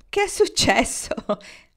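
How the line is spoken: Laughing question. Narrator (Italian): le chiese Marnie ridendo

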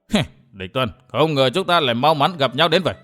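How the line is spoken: Sneering. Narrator (Vietnamese): Lưu Nguyên Bình cười khẩy nói

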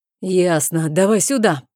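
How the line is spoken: Baron growling. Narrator (Russian): прорычал барон

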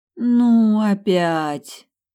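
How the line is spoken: Weary moan. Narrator (Russian): Устало простонала я

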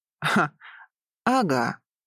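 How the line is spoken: Brute's chuckle. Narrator (Russian): хохотнул этот громила

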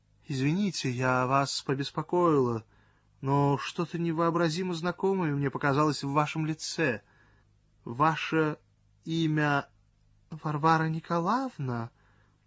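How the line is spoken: Timid question. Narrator (Russian): спросил робко Цвет

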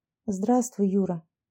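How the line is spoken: Quiet greeting. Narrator (Russian): тихо поздоровалась Аня

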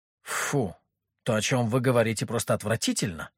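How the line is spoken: Indignant. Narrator (Russian): возмущенно сказала Мальвина

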